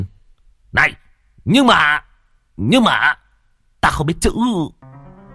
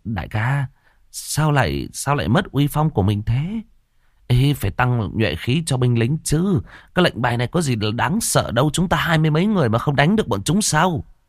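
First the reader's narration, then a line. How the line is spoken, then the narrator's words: Frightened, trembling, defiant. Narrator (Vietnamese): sợ hãi run run rẩy rẩy, mặt không phục nói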